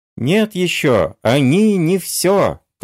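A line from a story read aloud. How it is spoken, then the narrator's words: Thin squeaky voice. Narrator (Russian): Тоненьким голосом пискнул примолкший было Петрушка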